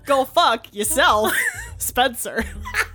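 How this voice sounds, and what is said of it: Christopher Walken impression, odd emphasis. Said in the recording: “good Christopher Walken impression ... put the emphasis on the wrong syllables”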